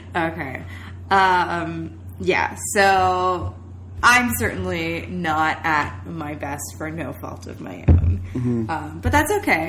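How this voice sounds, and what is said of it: Stuffed-up, congested voice. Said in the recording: “we're a little sick, so I'm pretty stuffed up... hear that in my voice”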